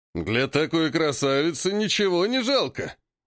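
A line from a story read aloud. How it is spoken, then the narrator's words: Man laughing. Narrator (Russian): Рассмеялся мужчина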